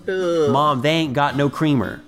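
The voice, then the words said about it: Deep Southern accent. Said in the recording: “But in deep Southern accent.”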